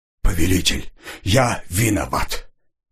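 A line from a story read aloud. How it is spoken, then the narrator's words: Grating hoarse wheeze. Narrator (Russian): неприятным скребущим по душе голосом прохрипел Ржавый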